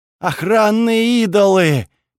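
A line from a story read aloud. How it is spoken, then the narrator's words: Young man moaning. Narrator (Russian): простонал парень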